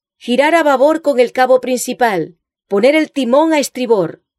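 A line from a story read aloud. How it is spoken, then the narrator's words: Shouting orders to crew. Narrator (Spanish): él le gritó a su tripulación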